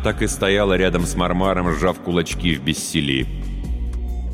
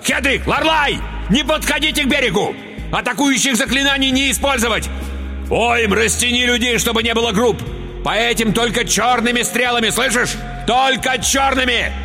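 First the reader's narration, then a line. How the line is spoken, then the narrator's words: Urgent yelling. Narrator (Russian): заорал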